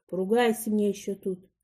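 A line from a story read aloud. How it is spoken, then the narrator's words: Muttering. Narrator (Russian): бормочет фельдшер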